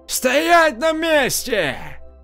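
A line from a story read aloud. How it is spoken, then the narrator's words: Shout. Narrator (Russian): крикнул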